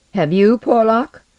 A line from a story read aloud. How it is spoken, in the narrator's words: The chemist laughed uneasily